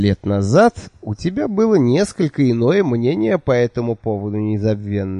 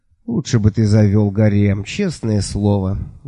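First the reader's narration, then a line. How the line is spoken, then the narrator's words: Woman sighing. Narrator (Russian): вздохнула эта восхитительная женщина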